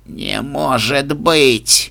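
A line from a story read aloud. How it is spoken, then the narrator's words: Shocked wheeze. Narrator (Russian): Пораженно прохрипел Рок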